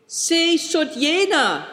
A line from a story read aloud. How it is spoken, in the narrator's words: cried Christian and Big Tiger